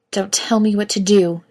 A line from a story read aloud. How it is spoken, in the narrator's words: she snarls